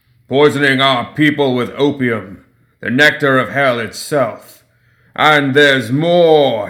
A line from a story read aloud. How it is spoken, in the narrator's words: thundered